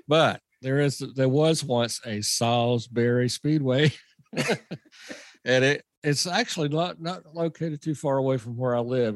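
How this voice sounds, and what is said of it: Southern American accent. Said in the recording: “it's my Southern accent”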